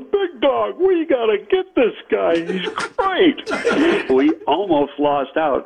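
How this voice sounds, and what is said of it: Imitates another person's voice. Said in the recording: “I'm doing my best Jerry Angelo impersonation here.”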